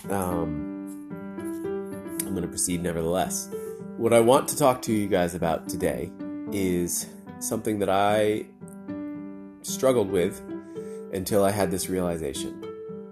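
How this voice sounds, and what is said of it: Congested, stuffy voice. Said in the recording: “I now have a full-fledged cold. You can probably hear it in my voice.”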